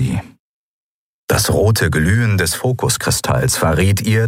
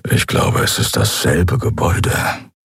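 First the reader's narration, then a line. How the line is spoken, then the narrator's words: Quiet grumble. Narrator (German): brummte Keru leise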